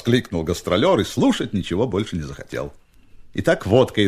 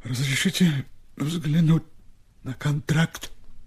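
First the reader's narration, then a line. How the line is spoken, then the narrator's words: Quiet request. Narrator (Russian): тихо попросил Степа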